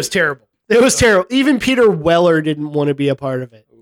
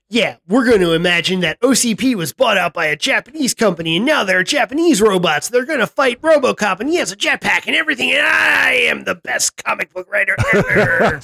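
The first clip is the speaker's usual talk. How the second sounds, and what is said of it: Imitates another person's voice. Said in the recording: “very good Frank Miller impression.”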